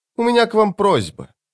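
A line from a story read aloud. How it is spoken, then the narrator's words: Scoffing grunt. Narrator (Russian): капитан хмыкнул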